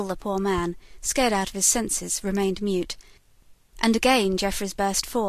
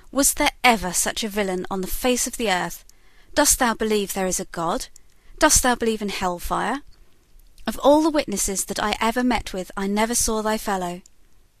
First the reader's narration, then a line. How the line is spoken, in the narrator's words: exclaimed the judge with an oath